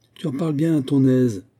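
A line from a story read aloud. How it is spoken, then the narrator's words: Exasperated exclaiming. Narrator (French): s'écria Morini exaspéré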